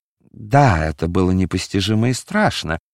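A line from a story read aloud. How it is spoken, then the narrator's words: Muttered. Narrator (Russian): пробормотал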